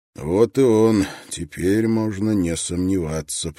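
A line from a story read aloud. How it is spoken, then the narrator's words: Through gritted teeth. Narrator (Russian): процедил Строн сквозь зубы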